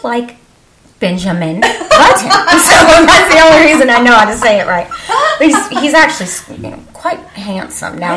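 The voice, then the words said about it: Texas accent. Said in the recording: “we're from Texas. I know I have an accent.”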